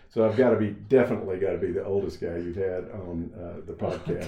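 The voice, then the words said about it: Slight Texas accent. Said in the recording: “you're going to catch a little bit of the accent from Texas”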